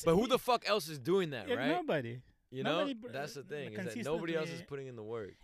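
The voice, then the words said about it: Russian-accented English. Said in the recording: “you hear this accent, right? ... jokes that are not about being Russian”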